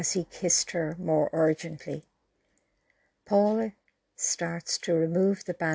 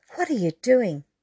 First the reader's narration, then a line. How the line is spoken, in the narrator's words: exclaimed